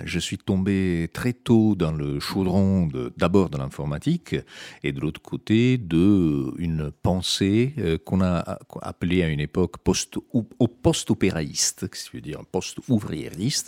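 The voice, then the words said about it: Italian accent speaking French. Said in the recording (French): “on peut le deviner à mon accent, je ne suis pas vraiment franco-français, mon origine italienne”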